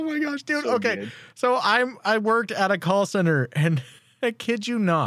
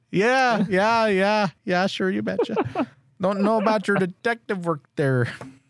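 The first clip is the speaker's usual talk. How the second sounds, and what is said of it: Put-on Fargo accent. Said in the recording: “that is the best accent in the States”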